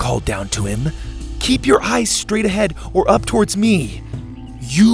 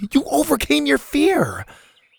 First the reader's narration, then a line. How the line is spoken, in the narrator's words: Bo groaned